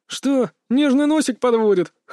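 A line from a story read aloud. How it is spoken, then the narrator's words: Smirking grunt. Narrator (Russian): хмыкнул Олег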